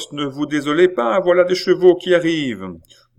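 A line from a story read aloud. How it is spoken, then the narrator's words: Postmaster shouting. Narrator (French): criait le maître de poste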